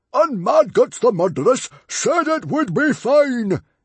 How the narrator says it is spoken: yelled Stoic

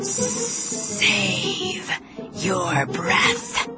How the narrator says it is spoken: he hissed

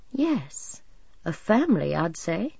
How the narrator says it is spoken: he said in his calm, pleased voice

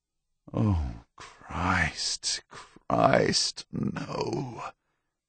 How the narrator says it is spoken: moaned helplessly

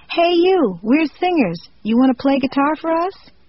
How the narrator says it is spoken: I opened up the window and yelled out

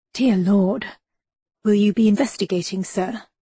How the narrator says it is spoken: murmured

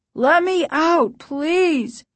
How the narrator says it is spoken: her father cried

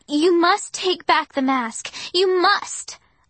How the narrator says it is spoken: I shouted

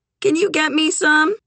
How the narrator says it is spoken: Doc wheezed out a laugh

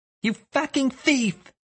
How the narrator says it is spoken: yelled

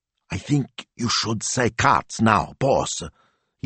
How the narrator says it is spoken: he said in a stage whisper

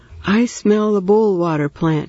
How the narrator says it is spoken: he said happily

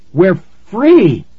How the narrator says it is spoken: Nikki cried

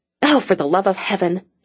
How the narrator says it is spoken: she muttered

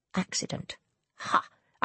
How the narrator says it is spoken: Ianthe muttered to herself

